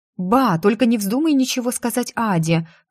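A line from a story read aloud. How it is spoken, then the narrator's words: Pleading. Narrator (Russian): взмолилась я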